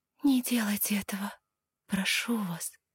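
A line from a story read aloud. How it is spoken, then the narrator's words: Quiet whisper. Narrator (Russian): тихо прошептала я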